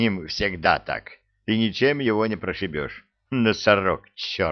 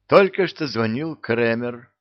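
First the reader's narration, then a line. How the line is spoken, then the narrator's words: Meek voice. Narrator (Russian): ответил я смиренным голосом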